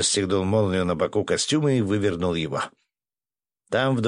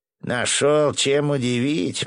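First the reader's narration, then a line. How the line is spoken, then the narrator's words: Grumbling. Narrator (Russian): проворчал Иваныч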